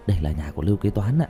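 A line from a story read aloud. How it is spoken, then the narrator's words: Quiet voice. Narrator (Vietnamese): Kỳ thần nhỏ giọng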